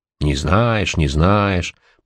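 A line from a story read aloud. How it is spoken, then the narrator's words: Grumbled. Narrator (Russian): проворчал директор по связям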